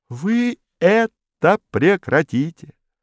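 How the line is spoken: Plain. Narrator (Russian): сказал Модест

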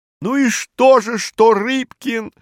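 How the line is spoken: Shouting. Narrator (Russian): закричал Пучко

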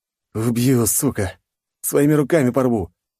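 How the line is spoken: Seductive moan. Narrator (Russian): застонала она соблазнительно

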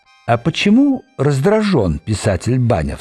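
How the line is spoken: Calm question. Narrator (Russian): спокойно спросил голем

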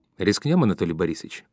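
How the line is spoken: Cheerful reply. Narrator (Russian): бодро ответил Алексей Петрович

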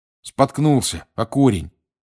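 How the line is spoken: Angry grumble. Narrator (Russian): сердито пробурчал он

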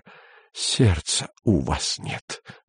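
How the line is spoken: Mumbling. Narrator (Russian): бормотал он

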